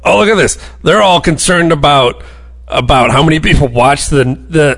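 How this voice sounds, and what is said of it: Caricatured Trump-supporter voice. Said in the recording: “I'm killing my voice doing my Trump voter voice.”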